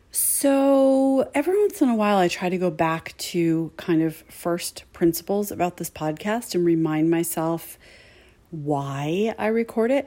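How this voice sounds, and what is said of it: Quiet, strained voice. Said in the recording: “I a little bit am losing my voice, so I'm going to speak in kind of a quiet voice”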